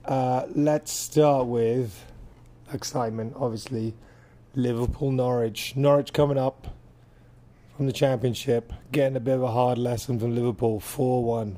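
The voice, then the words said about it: Voice rough from a cold. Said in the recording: “Sorry about my voice, I'm just recovering from a cold.”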